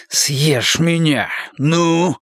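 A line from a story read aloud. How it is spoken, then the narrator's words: Cat-like hiss. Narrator (Russian): прошипел Луис, как сам кот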